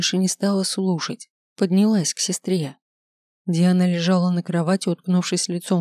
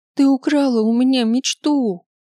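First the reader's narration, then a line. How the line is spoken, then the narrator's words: Sobbing, breathless shout. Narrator (Russian): крикнула она, всхлипывая и задыхаясь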